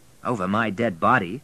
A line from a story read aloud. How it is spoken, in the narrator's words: said William